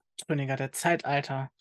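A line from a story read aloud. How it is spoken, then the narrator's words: Plain. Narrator (German): sagte sie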